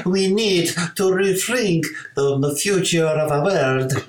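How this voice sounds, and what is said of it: Put-on Italian accent. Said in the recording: “I'll let you do the accent ... in my best Italian accent.”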